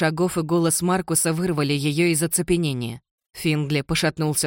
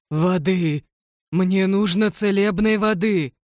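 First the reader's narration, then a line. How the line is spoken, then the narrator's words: Groaning in pain. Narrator (Russian): Финдли стонал от боли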